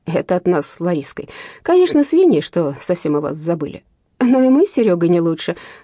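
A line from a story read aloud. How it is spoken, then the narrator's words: Laughing. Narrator (Russian): засмеялась Лена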